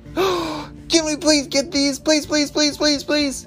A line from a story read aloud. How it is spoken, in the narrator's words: Ellie shouted to her parents